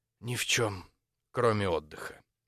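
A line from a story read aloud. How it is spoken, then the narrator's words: Low-voiced remark. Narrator (Russian): И добавила вполголоса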